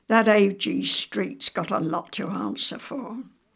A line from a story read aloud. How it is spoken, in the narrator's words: One other land girl said to me rather bitterly